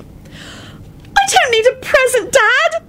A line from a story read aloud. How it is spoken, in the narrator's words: Rosie shrieked and burst into tears